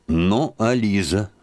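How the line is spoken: Plain question. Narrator (Russian): спросил Лаврецкий

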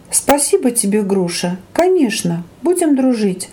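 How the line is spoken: Tender reply. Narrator (Russian): ласково ответил ей Прохор

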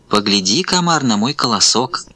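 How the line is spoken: Sugary sweet voice. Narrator (Russian): Говорит травинка сладким-присладким голоском

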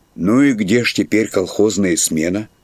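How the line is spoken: Plain question. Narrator (Russian): спросил шофер

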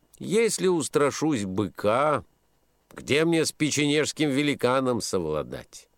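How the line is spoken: Calm young man. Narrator (Russian): спокойно отвечал юноша

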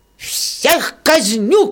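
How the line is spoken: Shouting. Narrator (Russian): кричал он

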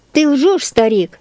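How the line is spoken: Shouting. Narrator (Russian): закричал на Елиазара всадник

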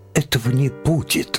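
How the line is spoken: Exclaimed. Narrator (Russian): воскликнул Лем

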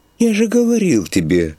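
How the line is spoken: Sighed. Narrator (Russian): вздохнул староста

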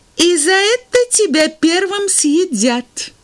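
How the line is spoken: Loud bird voice. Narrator (Russian): громко сказала птица-марабу

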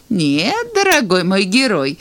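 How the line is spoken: Old woman laughing. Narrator (Russian): засмеялась старушка

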